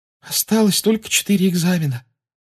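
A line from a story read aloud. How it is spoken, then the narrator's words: Said wearily. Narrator (Russian): устало сказала Парвати Патил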